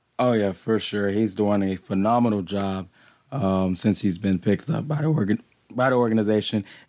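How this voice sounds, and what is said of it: Hoarse voice. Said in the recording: “my voice is a little hoarse. ... yelling at the TV ... yelling at the refs ... So, voice is a little hoarse.”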